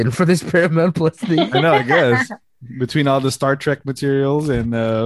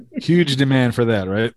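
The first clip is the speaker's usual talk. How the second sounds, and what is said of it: Sarcastic tone. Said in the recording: “being sarcastic here? ... I was being sarcastic.”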